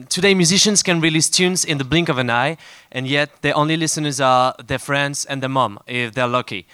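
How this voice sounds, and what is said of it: French accent. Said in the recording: “we French, so sorry for the accent.”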